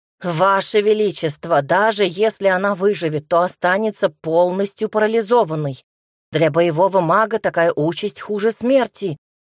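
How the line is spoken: Healer wailing. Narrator (Russian): взвыл лекарь

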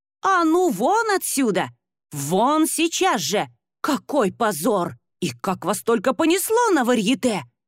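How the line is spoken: Hissing. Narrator (Russian): шипела она

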